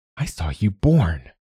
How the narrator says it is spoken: the hyena whispers fiercely

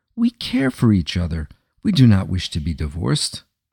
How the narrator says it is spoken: pleaded Rashid

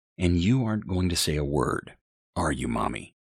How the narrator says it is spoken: His voice was so deep

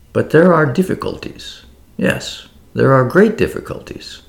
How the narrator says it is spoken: he murmured to himself

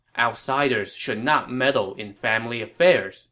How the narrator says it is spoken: Zhuge Liang said

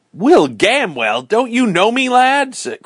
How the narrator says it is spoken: cried Robin

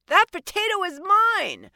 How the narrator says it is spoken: I shouted through my drunken stupor

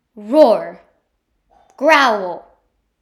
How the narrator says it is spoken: yelled Dr

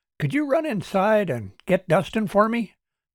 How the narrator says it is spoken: Martin called out

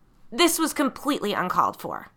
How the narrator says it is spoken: spat

